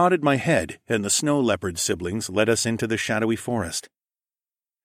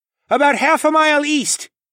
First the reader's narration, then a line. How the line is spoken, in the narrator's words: Tawa yelled back